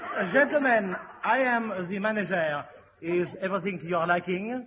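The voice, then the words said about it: Mock French accent. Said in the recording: “your impression of a Frenchman”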